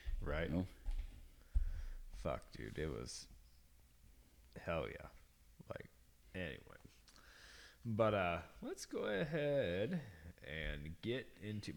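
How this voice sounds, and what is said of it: Deeper, rougher voice than usual. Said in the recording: “my voice is a little deeper tonight because from fucking wrestling, but this bourbon too”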